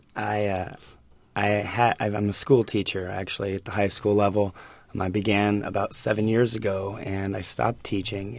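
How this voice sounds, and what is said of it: Slightly raspy voice. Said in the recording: “my voice is a little raspy. I think it's from getting back into the classroom.”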